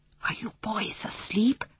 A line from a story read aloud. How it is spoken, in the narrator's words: she whispered